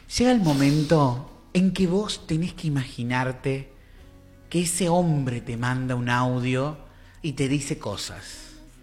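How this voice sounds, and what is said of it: Female radio announcer voice. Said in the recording (Spanish): “Voy a poner voz de locutora.”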